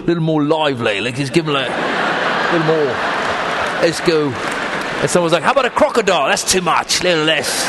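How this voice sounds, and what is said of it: Put-on Australian accent. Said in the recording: “keep talking in your Australian accent ... you do a bad Australian accent”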